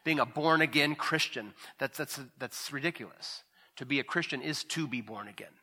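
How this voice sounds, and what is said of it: Usual voice. Nothing is said of it.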